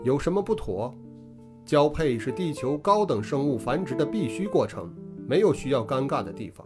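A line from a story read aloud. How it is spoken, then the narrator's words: Calm. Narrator (Chinese): 声音平静地说道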